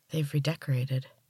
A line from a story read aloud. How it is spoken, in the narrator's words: Gemma said softly